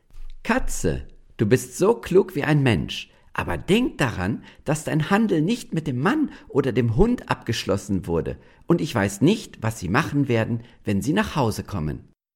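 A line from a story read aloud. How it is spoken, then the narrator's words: Woman, laughing. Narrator (German): Da lachte die Frau und sagte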